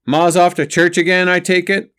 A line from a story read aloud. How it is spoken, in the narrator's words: Lehi asked in a loud voice